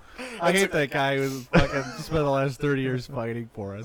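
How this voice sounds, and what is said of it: Sarcastic mocking delivery. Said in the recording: “That's a great impression. That is a great impression. ... I'm just being sarcastic.”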